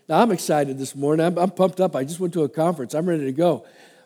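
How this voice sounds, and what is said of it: Congested, stuffed-up voice. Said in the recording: “I've got a cold. I'm all plugged up here”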